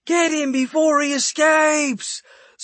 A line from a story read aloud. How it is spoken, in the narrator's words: Someone else yelled from behind me